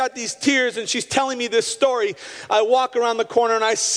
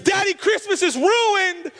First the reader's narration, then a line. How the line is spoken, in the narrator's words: MJ comes around the corner and screams